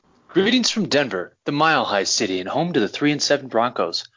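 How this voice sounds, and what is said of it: Polished radio announcer voice. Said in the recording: “That was a beautiful radio voice ... That's a very good voice ... I thought that was a recording”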